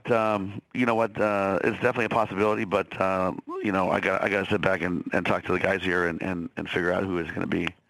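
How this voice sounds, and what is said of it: Hoarse, deep voice. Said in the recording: “your voice is hoarse ... my voice sounds like Barry White ... It's very soothing.”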